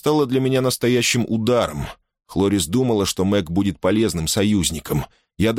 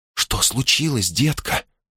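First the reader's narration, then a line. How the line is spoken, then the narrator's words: Whisper. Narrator (Russian): прошептала Хлорис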